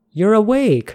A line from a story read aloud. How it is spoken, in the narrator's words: Amelia exclaimed